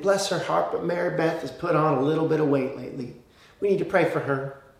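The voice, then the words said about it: Put-on Southern American accent. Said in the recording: “I don't know why I busted out the Southern accent there.”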